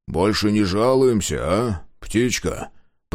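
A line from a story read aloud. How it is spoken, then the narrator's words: Old creature grumbling. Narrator (Russian): проворчал старый гривар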